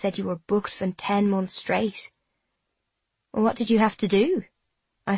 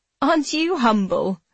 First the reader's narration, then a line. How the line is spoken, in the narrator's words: I laugh